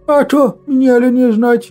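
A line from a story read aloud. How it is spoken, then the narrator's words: Sad, smiling wood spirit. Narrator (Russian): Печально улыбнулся в усы леший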